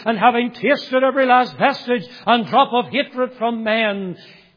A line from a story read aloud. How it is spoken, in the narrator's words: he cried